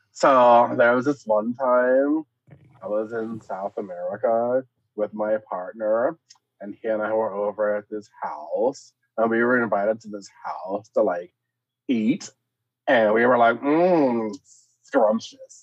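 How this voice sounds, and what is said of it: Put-on exaggerated gay voice. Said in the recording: “tell that in a gay voice ... telling it in a gay voice ... sound as gay as possible”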